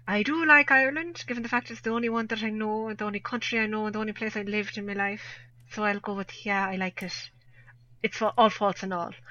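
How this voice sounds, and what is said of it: Exaggerated extra-thick Irish accent. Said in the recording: “extra thick on the Irish there ... I just decided I'd go completely and utterly take Irish. That isn't my normal accent.”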